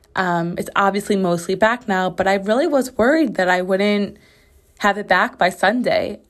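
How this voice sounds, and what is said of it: Slightly raspy recovering voice. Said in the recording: “my sore, raw throat and voice had enough, and I completely lost my voice ... I don't know if you can hear that I'm still a little raspy ... It is like 97% back. I'm just a little raspy here and there.”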